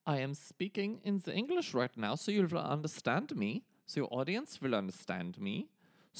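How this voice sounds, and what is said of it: Put-on German accent. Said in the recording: “why do you sound so different from me ... I am from the country of Germany. I'm from a part of Germany called Bavaria. And my voice sounds a little different than yours”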